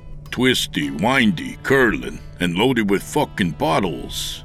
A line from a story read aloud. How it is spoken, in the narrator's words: James replied